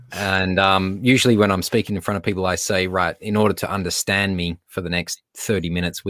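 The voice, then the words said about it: Australian accent. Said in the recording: “my accent ... our Australian accents”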